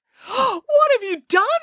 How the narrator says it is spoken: cried Alibaba

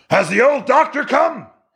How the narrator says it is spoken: He yelled

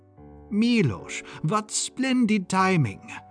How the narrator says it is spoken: Rudolph exclaimed

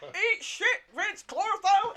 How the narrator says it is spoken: Higgins yells

